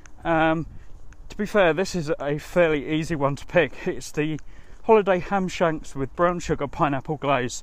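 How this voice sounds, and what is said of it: Slightly out of breath. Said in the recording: “I tend to do these shows on the move ... just out for a walk ... I might seem a little bit out of breath”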